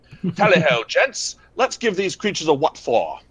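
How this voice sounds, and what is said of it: Put-on posh British officer accent. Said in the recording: “I'm probably not going to give his accent the way that Bishop wants ... Brigadier Lethbridge Stewart, essentially.”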